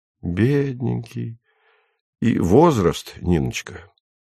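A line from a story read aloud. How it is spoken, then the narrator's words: Sighing. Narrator (Russian): Она вздохнула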